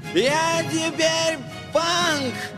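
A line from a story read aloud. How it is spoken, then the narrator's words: Shout. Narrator (Russian): крикнул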